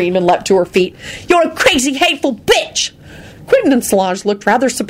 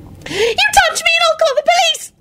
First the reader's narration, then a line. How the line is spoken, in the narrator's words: Loretta screeched